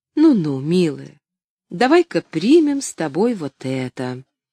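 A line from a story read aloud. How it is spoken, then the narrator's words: Gentle coaxing. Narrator (Russian): принялась ласково уговаривать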